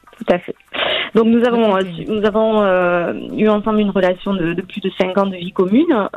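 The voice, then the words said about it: Slight regional French accent. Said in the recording (French): “ce petit accent que j'entendais ... Un accent.”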